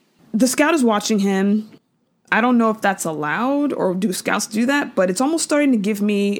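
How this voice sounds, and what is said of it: Usual voice. Nothing is said of it.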